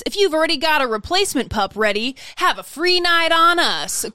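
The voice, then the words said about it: Cheesy radio DJ voice. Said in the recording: “read another way with a radio DJ voice”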